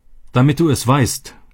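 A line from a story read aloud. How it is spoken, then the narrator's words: Shouting. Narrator (German): schrie er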